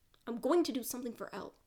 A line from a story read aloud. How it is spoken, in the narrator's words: Mike snaps